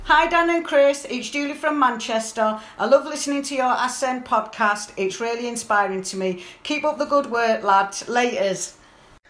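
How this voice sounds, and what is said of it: Manchester English accent. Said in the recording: “Love the Manchester accent.”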